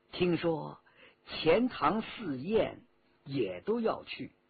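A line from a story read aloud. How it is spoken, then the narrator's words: Low voice. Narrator (Chinese): 和珅……低声说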